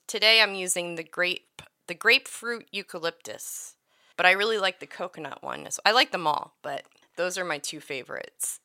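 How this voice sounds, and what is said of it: Congested, stuffy-nosed voice. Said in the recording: “my nose is stuffed all the time, or sound like a five-year-old... my voice might be a little wonky today”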